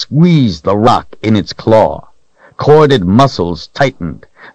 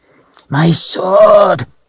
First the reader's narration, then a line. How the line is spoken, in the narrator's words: it snarled